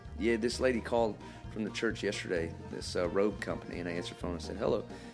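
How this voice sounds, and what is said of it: Southern American country accent. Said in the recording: “Your country accent today. Usually you have your radio voice. ... convert back to Billy Bob Thornton”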